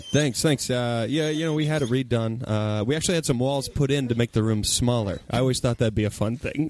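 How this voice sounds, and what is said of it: Imitates another person's voice. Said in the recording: “I do the worst... Don't do a good impersonation of him”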